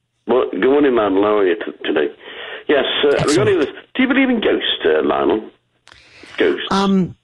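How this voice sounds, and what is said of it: English accent. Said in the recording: “right now will have an English accent, so please, we don't have subtitles, but listen very carefully.”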